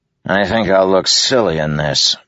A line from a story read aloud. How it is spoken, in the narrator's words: Moash grumbled